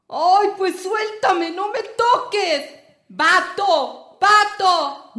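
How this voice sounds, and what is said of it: Shouting. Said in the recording (Spanish): “No grites.”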